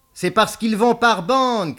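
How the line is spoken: Shout. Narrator (French): cria Beaumasque

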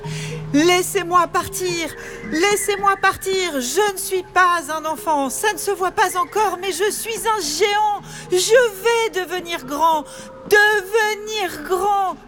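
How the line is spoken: Shouted into emptiness. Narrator (French): hurla-t-il dans le vide

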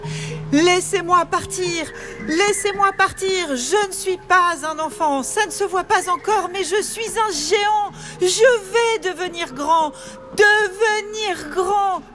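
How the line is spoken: Shouted into emptiness. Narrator (French): hurla-t-il dans le vide

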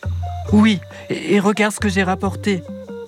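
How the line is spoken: Very excited exclamation. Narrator (French): s'écrie Isha très excitée

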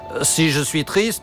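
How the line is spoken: Plain. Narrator (French): répondit le clown

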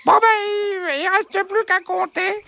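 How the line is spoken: Exclaiming. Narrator (French): s'exclama Bernadette

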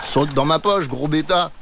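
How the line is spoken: Plain. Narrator (French): dit Monsieur Roux

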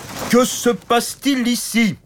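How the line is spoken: Big knight's shout. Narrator (French): cria le grand chevalier costaud et stupide

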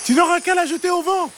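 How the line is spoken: Shouting. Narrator (French): cria-t-elle

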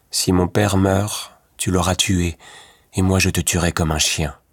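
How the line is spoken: Said in a grim voice. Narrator (French): dit Louis Cornbutte d'une voix sombre

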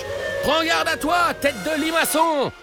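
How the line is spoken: Shouted teasingly. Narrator (French): lui crie Papa Ninja

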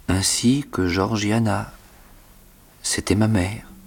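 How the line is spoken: Timid explanation. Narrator (French): expliquai-je timidement

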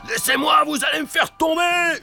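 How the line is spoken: Screaming. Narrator (French): hurle Joe l'Exterminateur

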